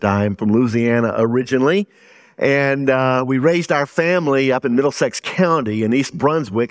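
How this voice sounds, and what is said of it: Southern American accent. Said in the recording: “the first thing you will recognize is that I have a Southern accent.”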